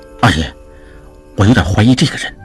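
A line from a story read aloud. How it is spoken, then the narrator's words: Low voice. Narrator (Chinese): 常栓低声说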